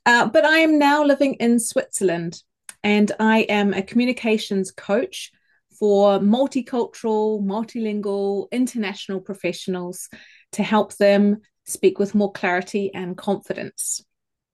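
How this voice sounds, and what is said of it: New Zealand accent. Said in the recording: “I'm originally from New Zealand ... that funny accent ... my funny accent”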